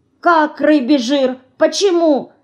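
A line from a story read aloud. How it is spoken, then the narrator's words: Frightened mouse asking. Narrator (Russian): испуганно спрашивает мышка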